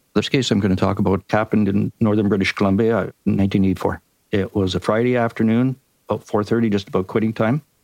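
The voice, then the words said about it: Canadian accent. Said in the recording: “my Canadian accent ... We love your Canadian accent.”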